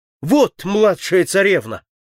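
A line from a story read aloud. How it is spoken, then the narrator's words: Exclaimed. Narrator (Russian): воскликнул он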